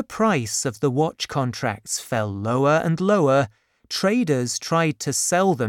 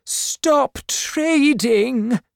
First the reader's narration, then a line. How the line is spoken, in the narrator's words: Vanessa cried out